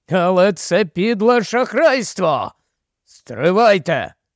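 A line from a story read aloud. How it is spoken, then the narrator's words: Sudden loud bark. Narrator (Ukrainian): гаркнув раптом Ван Райк, заглушивши їх обох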